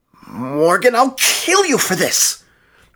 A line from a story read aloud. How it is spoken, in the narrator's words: spat back